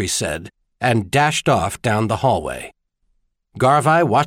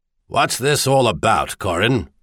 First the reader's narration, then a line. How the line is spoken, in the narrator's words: Sir Rysel Garvey grumbled